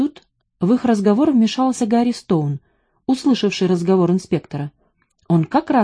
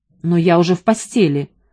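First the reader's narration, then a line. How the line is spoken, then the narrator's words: Irritated voice. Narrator (Russian): раздраженным голосом сказал Делени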